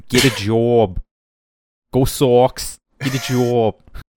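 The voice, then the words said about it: Exaggerated put-on Boston accent. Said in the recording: “that's a terrible accent ... That's a Boston accent ... I'm doing a perfect imitation of a Bostonian accent. And it's trash because it's the trash Bostonian accent.”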